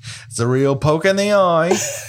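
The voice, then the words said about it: Put-on Australian accent. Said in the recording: “Again, Australian. My God. They're different accents. ... All of my fucking accents are Australian.”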